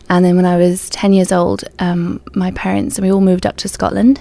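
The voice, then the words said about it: English accent. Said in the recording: “if you meet a Scottish person, they won't sound like me... So I'm English. My accent is English.”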